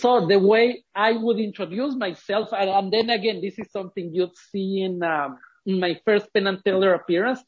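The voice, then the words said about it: Ecuadorian-accented English. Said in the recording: “I was born and raised in Ecuador. That explains the accent.”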